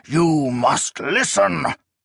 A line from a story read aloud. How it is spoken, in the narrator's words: a deranged priest … hissing